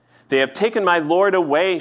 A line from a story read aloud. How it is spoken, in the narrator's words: she said